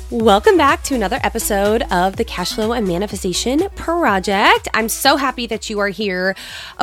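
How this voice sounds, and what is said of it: Congested, sick-sounding voice. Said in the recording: “if my voice sounds a little different, yo girl over here has been sick for weeks ... my voice just went downhill ... I'm still congested”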